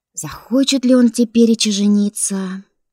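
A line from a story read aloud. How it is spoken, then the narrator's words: Sigh. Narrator (Russian): Вздохнула Баська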